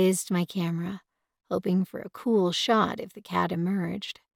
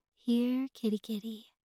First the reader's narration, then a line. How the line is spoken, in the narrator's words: called gently